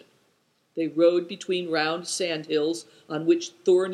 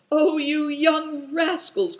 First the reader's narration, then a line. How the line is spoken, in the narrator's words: cried Good Fortune